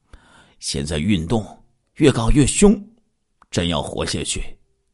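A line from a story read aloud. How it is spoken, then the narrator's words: Emotional sighing. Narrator (Chinese): 施碧莎心中一阵激动，叹息说道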